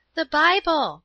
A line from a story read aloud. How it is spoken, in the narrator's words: cried Paula